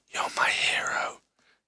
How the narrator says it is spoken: whispered

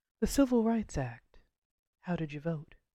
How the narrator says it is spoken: I asked

